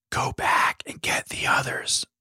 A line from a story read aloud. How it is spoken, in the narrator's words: whispered Abigail